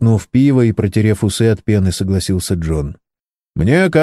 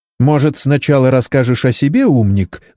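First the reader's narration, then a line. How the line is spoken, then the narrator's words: Vicious shout. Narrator (Russian): злобно крикнула ему доктор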